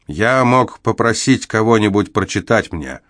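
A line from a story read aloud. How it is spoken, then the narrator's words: Irritated reply. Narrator (Russian): раздраженно ответил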